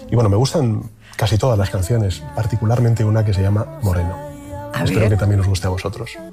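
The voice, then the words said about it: Near radio-announcer style voice. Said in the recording (Spanish): “casi se pone con voz de locutor”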